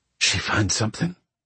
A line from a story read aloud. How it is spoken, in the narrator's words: Zig whispered